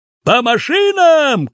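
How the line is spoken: Shouted. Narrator (Russian): крикнул дядя Сюва

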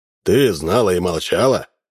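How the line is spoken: Stern, old great-uncle. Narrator (Russian): грозно спросил ее двоюродный дедушка

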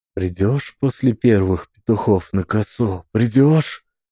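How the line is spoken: Whisper. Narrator (Russian): шептал Трофим

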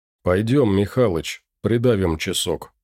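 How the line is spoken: Tired. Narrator (Russian): устало проговорил Андрей

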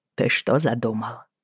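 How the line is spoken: Mumble. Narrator (Russian): пробормотала

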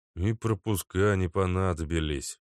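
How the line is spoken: Young man sighing. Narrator (Russian): вздохнул парень

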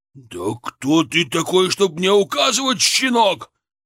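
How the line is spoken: Growling. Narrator (Russian): прорычал он

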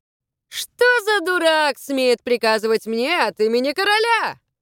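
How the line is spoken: Shouted back. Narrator (Russian): крикнул в ответ судебный пристав

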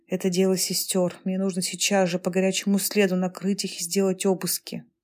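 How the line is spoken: Whispered. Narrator (Russian): Мухоедов по пути шепнул

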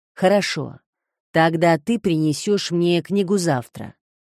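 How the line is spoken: Stern. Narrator (Russian): сказал он строго

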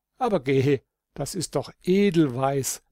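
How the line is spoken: Laughing young voice, distant. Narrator (German): klang die lachende Stimme des jungen Holdrio vom eisernen Gitter her

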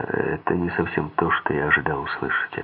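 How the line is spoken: Plain. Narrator (Russian): ответил я

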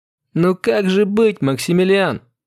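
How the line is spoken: Laughing loudly. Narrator (Russian): расхохоталась

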